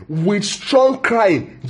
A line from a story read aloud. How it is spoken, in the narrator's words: Jesus cried in prayer